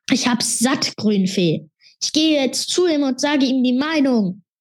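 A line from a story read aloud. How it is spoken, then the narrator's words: Calling out. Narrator (German): rief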